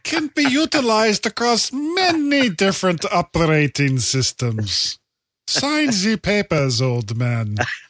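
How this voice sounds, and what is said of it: Mock German accent. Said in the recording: “I almost expected like a German accent”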